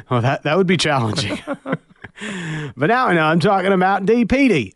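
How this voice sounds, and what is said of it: Put-on Australian accent. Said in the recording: “exclusively in an Australian accent ... this is an excuse for me to do my accents”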